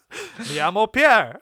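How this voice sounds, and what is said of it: Fake French accent. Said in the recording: “But I got a French accent.”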